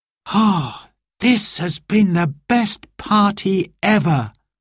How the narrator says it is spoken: sighed Simon

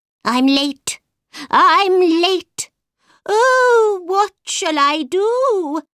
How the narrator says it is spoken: the white rabbit cried

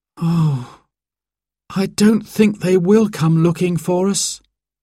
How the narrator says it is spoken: sighed Simon miserably

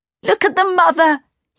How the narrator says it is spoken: cried

